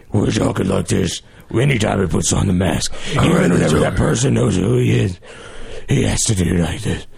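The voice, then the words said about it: Imitation of Batman's masked voice. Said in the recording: “that was a good impression, by the way. I would rate that a 7 out of a 10.”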